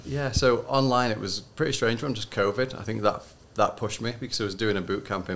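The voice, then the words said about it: Leeds English accent. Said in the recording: “He's come from Leeds in the UK, has a very nice accent.”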